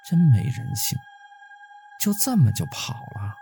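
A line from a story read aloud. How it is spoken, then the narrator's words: Low voice. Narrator (Chinese): 陈月低声说道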